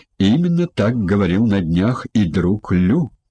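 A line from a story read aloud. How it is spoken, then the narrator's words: Plain. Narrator (Russian): ответил Хань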